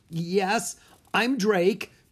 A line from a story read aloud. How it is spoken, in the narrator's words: Drake said, his voice shaking